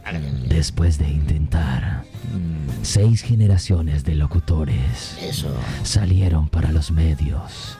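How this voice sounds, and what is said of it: Formal announcer voiceover voice. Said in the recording (Spanish): “Hay que poner voz institucional”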